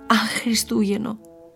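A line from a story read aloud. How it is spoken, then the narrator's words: Crying. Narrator (Greek): έκλαψε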